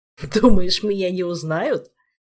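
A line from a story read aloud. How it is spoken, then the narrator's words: Cossack's chuckle. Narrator (Russian): хохотнул казак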